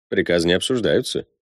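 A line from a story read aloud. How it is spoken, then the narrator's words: Calm reminder. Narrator (Russian): спокойно напомнил Прид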